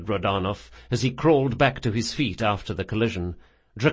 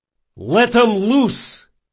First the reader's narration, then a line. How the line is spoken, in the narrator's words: he shouted